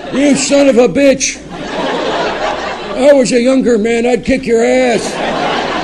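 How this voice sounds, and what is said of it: Imitates an elderly grandfather's voice. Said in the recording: “That was an impression of my grandfather.”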